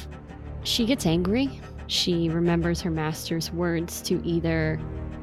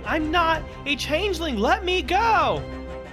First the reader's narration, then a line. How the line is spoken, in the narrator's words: Fergus shouting